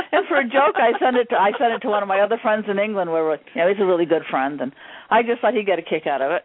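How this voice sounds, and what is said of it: English or Irish sounding accent. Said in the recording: “you have a different accent. It's like, is it like, you know, English, Irish?”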